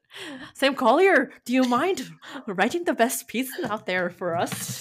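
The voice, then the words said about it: Put-on Irish accent. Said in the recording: “Irish accent. Amazing.”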